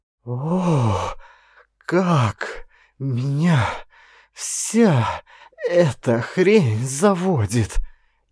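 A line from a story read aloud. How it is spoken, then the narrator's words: Halting speech broken by moans. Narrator (Russian): Ей приходилось делать паузу между каждым словом, а потом паузы стали заполняться быстрыми стонами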